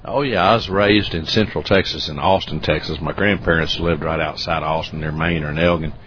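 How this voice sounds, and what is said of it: Slight southern US accent. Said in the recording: “It's very subtle, but it sounds like you have a slight southern accent. I'm assuming you're from the South.”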